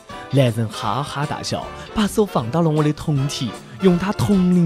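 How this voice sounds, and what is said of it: Usual voice. Nothing is said of it.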